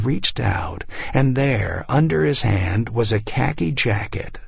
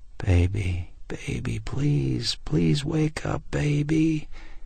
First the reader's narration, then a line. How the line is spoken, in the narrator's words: whispering